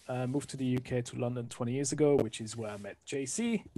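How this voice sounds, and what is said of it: French accent. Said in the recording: “I'm originally from France, as you can hear from the accent.”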